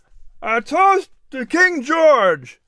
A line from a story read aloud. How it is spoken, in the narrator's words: exclaimed